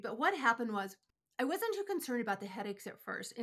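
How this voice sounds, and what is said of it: Congested, stuffy voice. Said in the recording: “as you can hear in my voice, I've got an allergy voice today.”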